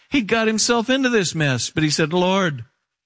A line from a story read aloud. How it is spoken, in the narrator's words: he cried out to the Lord